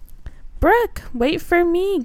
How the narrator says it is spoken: Gilly cried

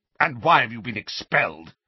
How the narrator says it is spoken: Uncle Vernon glared at him, then spat out

